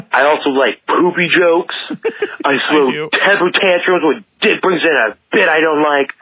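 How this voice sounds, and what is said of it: Put-on dumb-sounding voice. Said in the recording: “I have to talk in a dumb voice”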